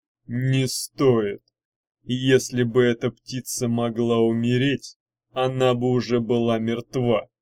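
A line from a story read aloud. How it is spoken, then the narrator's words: Muffled, hollow. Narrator (Russian): глухо сказал Мардоний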